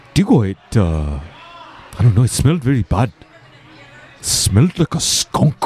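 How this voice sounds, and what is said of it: Very thick put-on African accent. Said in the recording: “African as all the biggest, thickest African accent.”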